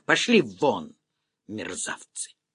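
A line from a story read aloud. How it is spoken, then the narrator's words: Hissing. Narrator (Russian): Олеся вдруг зашипела на них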